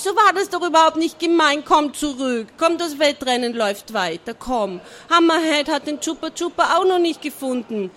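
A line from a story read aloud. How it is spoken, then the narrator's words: Disappointed calling. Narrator (German): rief er enttäuscht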